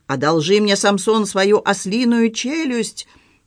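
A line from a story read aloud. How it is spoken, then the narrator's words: Yelling. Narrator (Russian): главный раввин вопил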